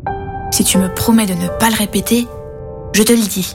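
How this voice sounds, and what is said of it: Whispering. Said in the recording (French): “chuchote”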